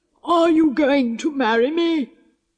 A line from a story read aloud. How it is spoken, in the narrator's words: roared